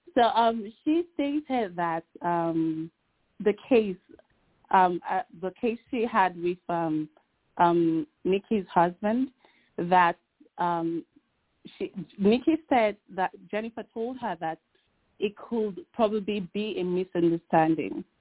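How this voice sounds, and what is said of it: Noticeable accent in English. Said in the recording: “I hope you can understand my accent.”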